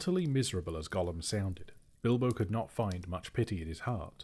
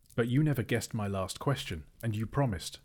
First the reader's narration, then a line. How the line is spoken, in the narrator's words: said Bilbo